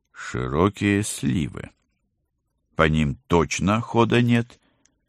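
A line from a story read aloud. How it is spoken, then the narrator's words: Plain. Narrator (Russian): Ответил Оги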